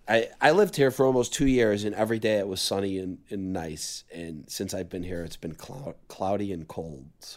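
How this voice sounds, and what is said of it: Hoarse, partly lost voice. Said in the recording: “better than your voice ... I know I lost my voice a little bit ... I just I just lost my voice.”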